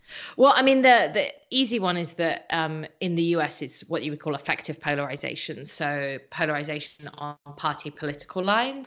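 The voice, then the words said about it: British accent. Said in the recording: “you are a British citizen, as people can probably tell from your accent”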